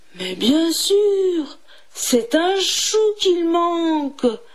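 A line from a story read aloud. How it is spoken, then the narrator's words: Fox exclaiming. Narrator (French): s'exclama le renard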